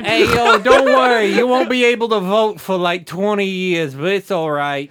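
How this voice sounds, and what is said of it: Put-on accent that keeps shifting. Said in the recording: “I like how your accent just sort of migrated ... His accent is moving like 200 miles a second ... his accent vibrates at a frequency we can't hear”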